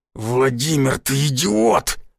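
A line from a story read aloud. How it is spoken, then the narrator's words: Growled in face. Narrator (Russian): зарычал Гвоздев мне в лицо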